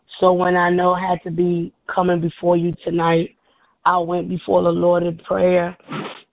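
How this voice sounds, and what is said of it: Slightly scratchy voice. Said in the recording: “I apologize for my voice being a little scratchy”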